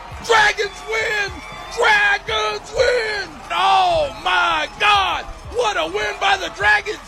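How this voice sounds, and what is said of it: Shouting excitedly. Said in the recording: “I'm going to lose my voice.”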